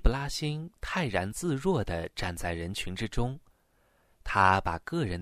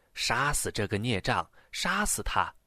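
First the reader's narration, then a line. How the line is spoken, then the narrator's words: Cursing, shouting crowd. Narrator (Chinese): 有人叫骂着，还有人喊叫着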